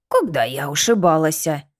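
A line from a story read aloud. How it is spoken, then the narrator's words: Snort in ear. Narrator (Russian): Фыркнула в ухе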